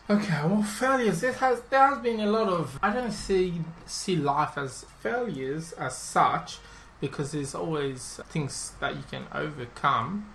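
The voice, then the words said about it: Non-Australian, Mauritian accent. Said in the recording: “as you can probably tell, is I don't have quite an Australian accent. That's because I migrated here about 11 years ago from Mauritius”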